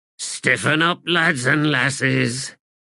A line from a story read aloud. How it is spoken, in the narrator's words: growled Brevity